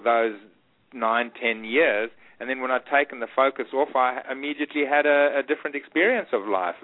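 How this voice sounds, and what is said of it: Strong South African accent. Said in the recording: “you still have a very strong South African accent”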